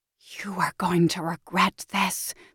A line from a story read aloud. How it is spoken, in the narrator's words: house whispers